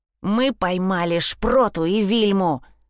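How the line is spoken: Hissed through a keyhole. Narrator (Russian): прошипел Вилли в замочную скважину

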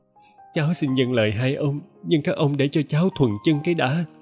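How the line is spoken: Tearful, whimpering. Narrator (Vietnamese): Chị Dậu mếu máo

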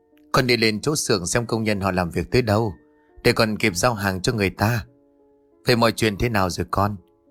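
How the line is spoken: Sighing reply. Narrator (Vietnamese): Toàn … thở dài đáp

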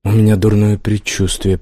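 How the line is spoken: Whispered. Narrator (Russian): прошептал он

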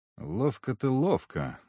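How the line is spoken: Thoughtful. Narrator (Russian): задумчиво сказал я

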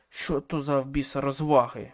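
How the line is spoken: Barked. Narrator (Ukrainian): гаркнув

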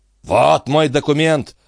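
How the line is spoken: Growl. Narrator (Russian): прорычал Антифер

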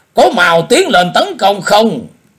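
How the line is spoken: Ashamed, angry shout. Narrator (Vietnamese): Y vừa hổ thẹn vừa tức giận, liền quát bảo môn hạ đệ tử rằng

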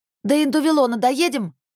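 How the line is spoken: Shouted. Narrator (Russian): прокричала Кассандра

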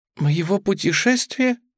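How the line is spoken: Embarrassed squeak. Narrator (Russian): пропищала Тюлип и сконфузилась

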